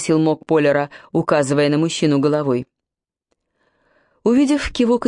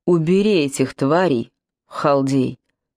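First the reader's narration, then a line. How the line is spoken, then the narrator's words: Growled. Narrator (Russian): рыкнул мок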